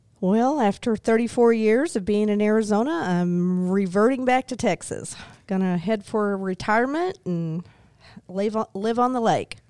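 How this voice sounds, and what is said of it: Slight Texas accent. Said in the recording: “a little bit of a Texas accent”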